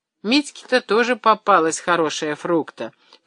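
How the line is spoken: Grumbling. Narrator (Russian): проворчал Андрей Иванович

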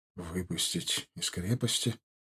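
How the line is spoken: Incredulous mutter. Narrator (Russian): не веря своим ушам, пробормотал Егоров

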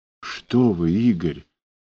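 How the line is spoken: Whispered. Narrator (Russian): прошептала она

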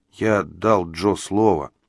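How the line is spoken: Mumbled. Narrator (Russian): промямлил он

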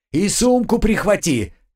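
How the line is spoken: Shouting after someone. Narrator (Russian): крикнул я ему вслед

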